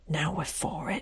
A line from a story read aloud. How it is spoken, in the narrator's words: whispered her sister